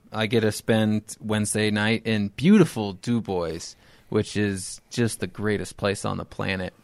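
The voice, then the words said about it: Sarcastic tone. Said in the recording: “Why are you being so sarcastic right now?”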